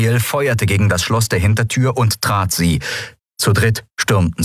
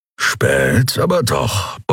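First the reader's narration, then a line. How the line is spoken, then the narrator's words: Grumbling. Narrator (German): brummte Kero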